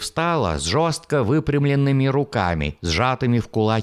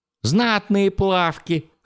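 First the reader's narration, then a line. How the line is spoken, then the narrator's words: Chuckling laugh. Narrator (Russian): хохотнул Джеральд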